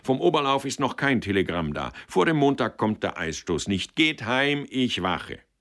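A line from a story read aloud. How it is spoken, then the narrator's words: Called out. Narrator (German): rief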